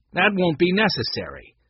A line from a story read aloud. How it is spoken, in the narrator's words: a male voice said firmly